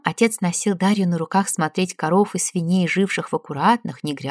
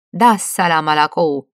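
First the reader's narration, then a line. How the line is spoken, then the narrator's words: Cheerful woman shouting. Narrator (Russian): Каждое утро толстая розовощёка эстонка весело кричала под окнами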